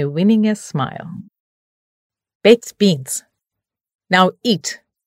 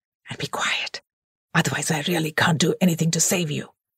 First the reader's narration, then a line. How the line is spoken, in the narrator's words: he whispered hoarsely